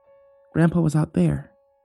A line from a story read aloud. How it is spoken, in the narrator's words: muttered